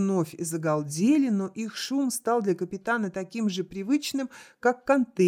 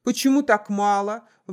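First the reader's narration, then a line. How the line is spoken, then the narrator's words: Shouted out. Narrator (Russian): выкрикнул Арнольд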